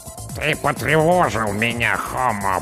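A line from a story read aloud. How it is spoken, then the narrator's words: Creaking mechanical voice. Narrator (Russian): проскрипела командная голова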